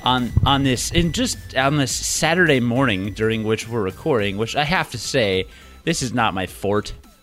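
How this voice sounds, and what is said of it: Throaty, deep morning voice. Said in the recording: “my voice is so throaty and man-like”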